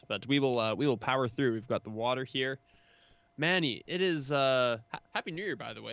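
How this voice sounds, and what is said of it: Hoarse, fading voice. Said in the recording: “I already started losing my voice there. I don't know if you heard that. ... We're getting a little hoarse.”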